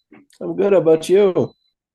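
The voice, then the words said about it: Tired-sounding voice. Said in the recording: “You sound a little tired.”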